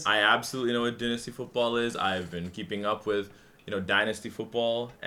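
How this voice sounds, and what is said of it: Pleasant, non-nasal accent. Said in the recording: “This is not a nasally Australian accent ... This is a beautiful accent”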